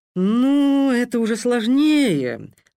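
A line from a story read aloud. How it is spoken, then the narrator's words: Director's deep booming drone. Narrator (Russian): прогудел генеральный директор Григорий Кузовских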